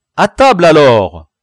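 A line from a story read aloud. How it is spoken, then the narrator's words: Dog roaring. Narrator (French): rugit le braque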